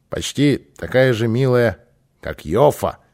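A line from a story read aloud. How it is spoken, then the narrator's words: Plain. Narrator (Russian): сказал Кристер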